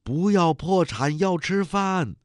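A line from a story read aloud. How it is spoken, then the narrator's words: Young woman shouting. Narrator (Chinese): 一个青年女工喊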